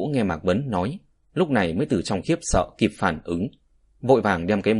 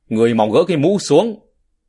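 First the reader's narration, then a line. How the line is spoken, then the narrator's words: Urgent raised shout. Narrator (Vietnamese): Tình hình khẩn cấp, Mạc Vấn hướng về phía Lão Ngũ cao giọng hô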